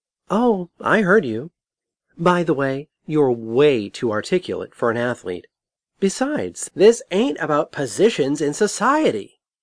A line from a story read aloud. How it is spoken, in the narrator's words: exclaimed Jess